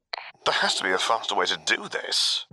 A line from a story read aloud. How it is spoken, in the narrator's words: General Veers mumbled